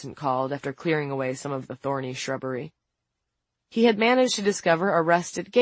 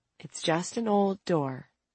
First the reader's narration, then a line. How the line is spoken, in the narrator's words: Franny said in a measured voice